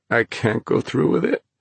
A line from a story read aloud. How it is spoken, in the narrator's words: Thomas moaned